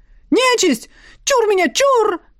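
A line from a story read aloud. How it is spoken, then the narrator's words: Young man yelling. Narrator (Russian): Заорал парень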